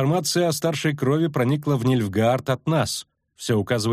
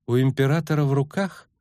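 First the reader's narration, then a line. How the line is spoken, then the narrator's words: Calm explanation. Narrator (Russian): спокойно пояснила Ассире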